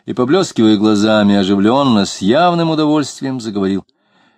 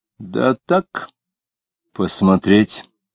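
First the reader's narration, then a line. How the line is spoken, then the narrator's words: Tired answer. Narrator (Russian): устало ответил Иноков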